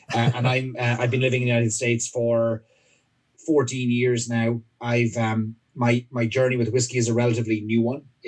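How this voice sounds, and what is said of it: Irish accent. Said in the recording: “I'm from Ireland, as the accent will betray me, even if I try and hide it.”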